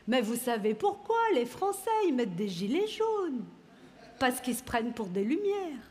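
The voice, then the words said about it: Put-on Swiss French accent. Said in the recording (French): “Exemple d'accent suisse”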